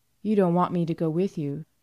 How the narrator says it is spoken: she said evenly

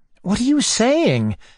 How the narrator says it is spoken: I cried

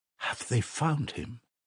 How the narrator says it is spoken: she asked timidly

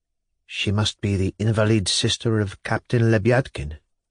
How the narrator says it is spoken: answered quietly

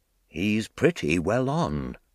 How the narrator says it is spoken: Professor McHugh said in a low voice

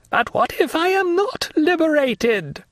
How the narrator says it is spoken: cried he

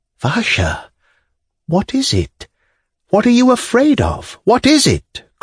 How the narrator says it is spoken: cried Arkady, wringing his hands in despair

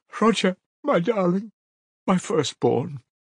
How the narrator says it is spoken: she said, sobbing

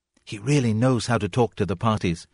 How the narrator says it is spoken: whispered the young woman

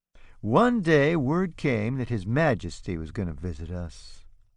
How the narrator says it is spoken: Oscar says dreamily

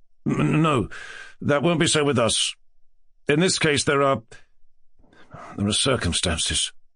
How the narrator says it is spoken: muttered Ganya, musing uneasily

